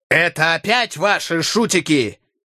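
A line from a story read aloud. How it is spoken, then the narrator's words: Shouting. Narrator (Russian): закричал он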